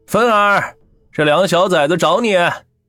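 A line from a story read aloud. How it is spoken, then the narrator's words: Calling out loudly. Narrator (Chinese): 冲屋里喊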